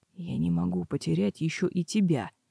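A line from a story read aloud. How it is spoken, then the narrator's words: Whisper. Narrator (Russian): прошептал Блэс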